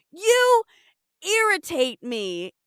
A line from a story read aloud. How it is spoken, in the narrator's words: yells